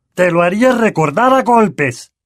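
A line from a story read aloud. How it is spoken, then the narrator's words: Uncle roaring in attack. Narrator (Spanish): rugió tío, abalanzándose contra Harry con el puño en alto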